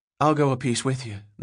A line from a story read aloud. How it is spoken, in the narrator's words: the boy said, so quietly